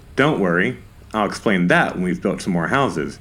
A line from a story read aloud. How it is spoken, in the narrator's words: said Ogninimus Fugg